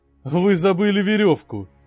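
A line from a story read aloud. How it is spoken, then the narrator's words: Laughing. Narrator (Russian): рассмеялся он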